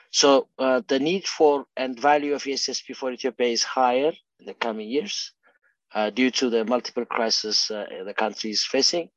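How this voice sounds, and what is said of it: Unwell, strained voice. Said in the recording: “I apologize for my voice ... you're not feeling very well”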